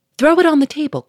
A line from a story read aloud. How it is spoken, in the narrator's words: cried Lupin